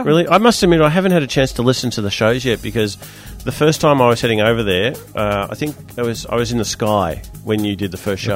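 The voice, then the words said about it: Croaky, failing voice. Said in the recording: “My voice is giving up on me. ... I'm very croaky.”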